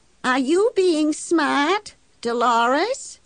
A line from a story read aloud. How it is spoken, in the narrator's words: she calls back in her cracked, wavery voice